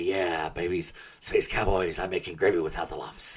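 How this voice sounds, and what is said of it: Strained imitated radio DJ voice. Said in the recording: “You're killing your throat, man. ... You're killing yourself doing that voice.”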